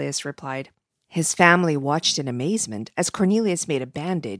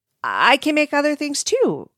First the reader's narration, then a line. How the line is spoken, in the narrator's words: Cornelius said eagerly